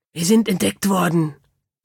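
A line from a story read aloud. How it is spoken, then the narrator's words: Hissing. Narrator (German): zischte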